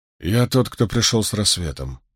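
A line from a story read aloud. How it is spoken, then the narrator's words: Quiet. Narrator (Russian): негромко сказал Ранд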